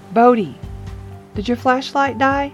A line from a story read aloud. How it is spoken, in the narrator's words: Logan called out